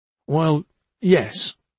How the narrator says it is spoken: he stammered

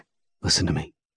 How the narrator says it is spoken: Hawk says calmly and quietly

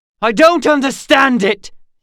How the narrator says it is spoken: he shouted at them

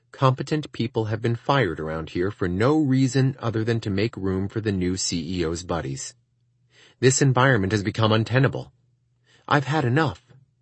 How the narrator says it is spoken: said to Mary in a serious tone

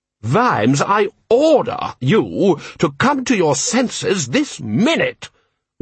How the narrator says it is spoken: roared Lord Rust

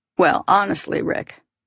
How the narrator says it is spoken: Paul said

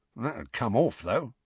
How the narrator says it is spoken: muttered Mundungus

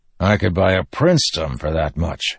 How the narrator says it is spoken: the quartermaster said with a grunt

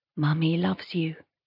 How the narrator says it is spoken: I whisper

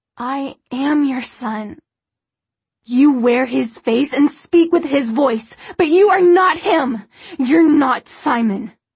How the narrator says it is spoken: Her voice rose to almost a scream

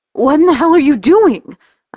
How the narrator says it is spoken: I gasp, my heart speeding out of control

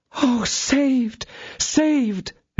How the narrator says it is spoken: exclaimed she

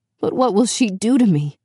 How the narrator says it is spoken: Beauty whimpered

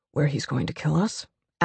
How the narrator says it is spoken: Alex murmurs

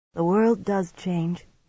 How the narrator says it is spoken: Amis said sadly

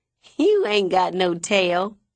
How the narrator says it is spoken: I laugh

